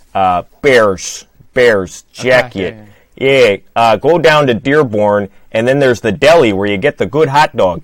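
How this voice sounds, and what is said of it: Imitated Chicago accent, stretched A. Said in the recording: “How does the Chicago accent go? ... They do something with the A and they stretch it.”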